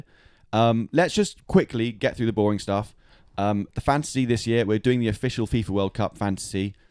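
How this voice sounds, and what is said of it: Very posh English accent. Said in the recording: “I speak in the poshest English accent possible.”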